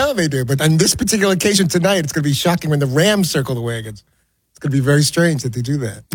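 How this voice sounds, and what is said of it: Usual voice. Nothing is said of it.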